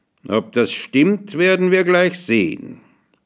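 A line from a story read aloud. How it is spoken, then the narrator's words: Called out. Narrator (German): rief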